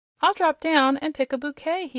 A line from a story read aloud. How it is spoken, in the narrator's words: he exclaimed